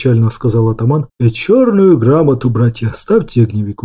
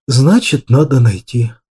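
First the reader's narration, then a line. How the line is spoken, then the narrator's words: Tired objection. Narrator (Russian): Устало возразил я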